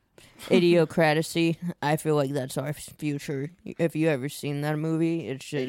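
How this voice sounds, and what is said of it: Stoned-sounding voice. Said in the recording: “I'm high. ... You can tell by my voice. I literally turned into Snoop Dogg in 5 minutes.”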